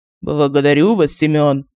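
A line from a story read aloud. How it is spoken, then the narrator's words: Muffled ghostly voice. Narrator (Russian): глухо сказал призрак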